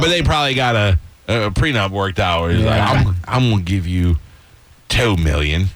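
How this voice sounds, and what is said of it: Usual voice. Nothing is said of it.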